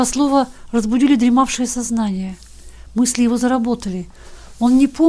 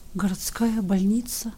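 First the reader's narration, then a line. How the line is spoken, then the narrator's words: Astonished quiet whisper. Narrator (Russian): на бледном слепом лице изобразилось глубокое изумление, и лишь через минуты губы тихо прошептали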